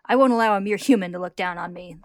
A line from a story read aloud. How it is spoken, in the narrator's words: they snarl